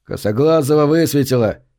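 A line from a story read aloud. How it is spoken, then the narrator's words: Shouting. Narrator (Russian): Кто-то крикнул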